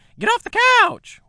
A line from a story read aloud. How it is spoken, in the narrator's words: Winifred cried, her high-pitched voice carrying through the plate-glass windows